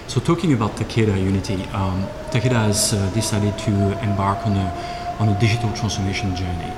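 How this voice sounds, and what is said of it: Swiss accent in English. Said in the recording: “as you can guess from my accent, I'm not American. I'm actually Swiss”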